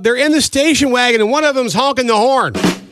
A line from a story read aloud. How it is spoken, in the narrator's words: She yelled